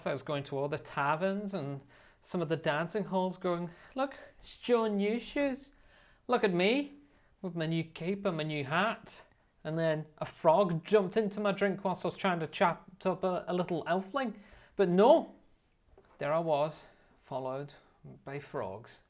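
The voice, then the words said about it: Put-on Gaelic-style accent. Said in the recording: “Have you changed accent? ... I have somewhat transversed the Gaelic crossroads.”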